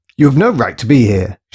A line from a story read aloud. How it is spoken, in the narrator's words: she shouted